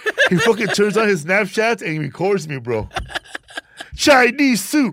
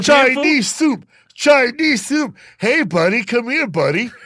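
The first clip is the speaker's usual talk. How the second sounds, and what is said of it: Shouting loudly. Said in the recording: “I'm yelling out”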